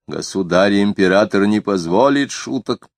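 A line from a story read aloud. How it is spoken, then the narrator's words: Confident stern man. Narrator (Russian): Высокий человек в серой шляпе сказал уверенно и строго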